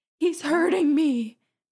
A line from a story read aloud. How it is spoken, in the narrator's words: she cried